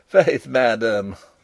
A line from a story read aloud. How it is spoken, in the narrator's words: laughed Rupert